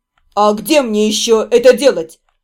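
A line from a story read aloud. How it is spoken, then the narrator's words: Snapping retort. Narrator (Russian): огрызнулся Седрик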